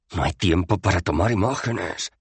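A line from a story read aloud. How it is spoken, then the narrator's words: Hissed. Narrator (Spanish): siseó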